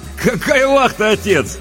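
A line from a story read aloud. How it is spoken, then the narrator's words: Cheerful interruption. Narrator (Russian): весело перебил его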